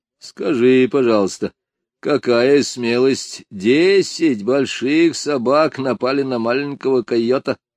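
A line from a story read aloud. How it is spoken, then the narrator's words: Mocking remark. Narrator (Russian): насмешливо заметил отец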